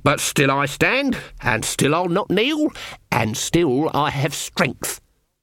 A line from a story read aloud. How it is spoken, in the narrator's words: croaked